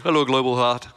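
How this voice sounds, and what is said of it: Bad put-on accent. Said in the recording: “that accent's really bad”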